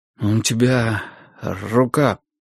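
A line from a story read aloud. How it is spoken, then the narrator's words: Forced out. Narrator (Russian): выдавил я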